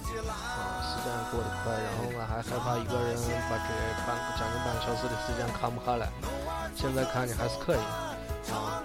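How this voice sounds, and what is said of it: Shaanxi dialect, suburban, not standard. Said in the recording (Chinese): “纯是陕西话版的...咱这个播音也是陕西话，说的呢不太标准...因为我也不是咱西安人。啊，肯定是带这个郊区口音”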